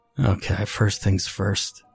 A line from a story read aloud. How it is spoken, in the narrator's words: he muttered